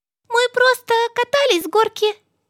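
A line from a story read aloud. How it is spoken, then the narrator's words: Squeaking voices. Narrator (Russian): пискнули они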